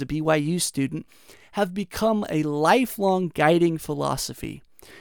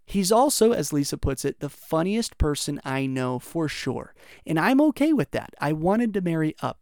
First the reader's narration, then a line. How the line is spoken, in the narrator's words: she says